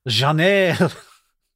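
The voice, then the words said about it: Put-on French accent. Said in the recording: “read my name in your best French accent.”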